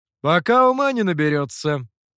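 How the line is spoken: Loud. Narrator (Russian): громко ответил мастер

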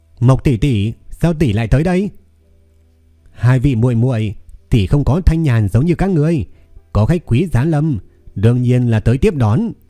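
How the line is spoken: Smiling speech. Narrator (Vietnamese): Huyền Thiên Khanh Hy cùng với Ngô Vong Trần mỉm cười nói

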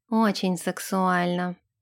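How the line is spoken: Sigh. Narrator (Russian): вздохнул Нэш

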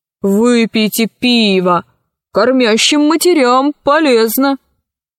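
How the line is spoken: Good-natured laughter. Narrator (Russian): Он беззлобно расхохотался

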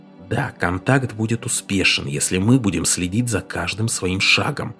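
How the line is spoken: Whispered. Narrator (Russian): прошептал Мартин

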